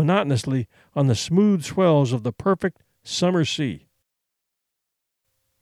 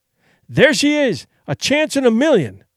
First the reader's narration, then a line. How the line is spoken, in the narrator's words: he cried